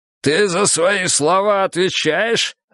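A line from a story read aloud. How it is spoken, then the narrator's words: Growling. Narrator (Russian): рыкнул и Миха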